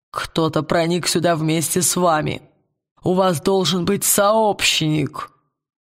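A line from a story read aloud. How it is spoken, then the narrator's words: Creaky voice. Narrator (Russian): проскрипел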